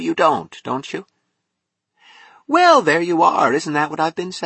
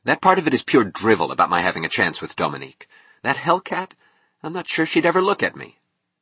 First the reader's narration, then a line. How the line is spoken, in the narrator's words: he said harshly